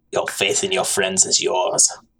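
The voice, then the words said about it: Good impression of Emperor Palpatine. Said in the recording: “your best Palpatine impression ... That's actually pretty good.”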